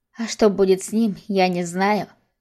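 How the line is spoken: Barely audible. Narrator (Russian): сказала едва слышно

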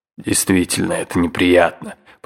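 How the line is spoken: Grumbled, uncle. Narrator (Russian): проворчал дядя

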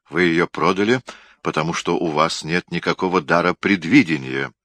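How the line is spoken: Grim smiling tone. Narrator (Russian): мрачно улыбнулся Гендерсон

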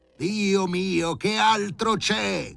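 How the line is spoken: Alarmed shout. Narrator (Italian): gridò Filippo Filippovic

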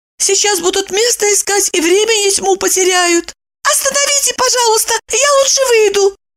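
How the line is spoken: Shouting. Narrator (Russian): Закричала она

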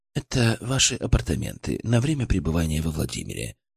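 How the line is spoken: Flat emotionless voice. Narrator (Russian): пояснил Мельников своим ровным, безэмоциональным голосом

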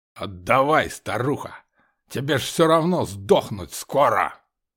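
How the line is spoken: Hoarse drunken harsh growl. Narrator (Russian): Рычал здоровяк, его голос, сиплый от самогона, резал ухо

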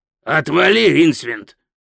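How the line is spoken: Barked. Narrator (Russian): рявкнул Пузан

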